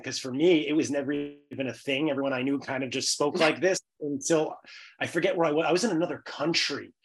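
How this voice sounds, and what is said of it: Bronx New York accent. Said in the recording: “the accent ... You're from the Bronx, aren't you?”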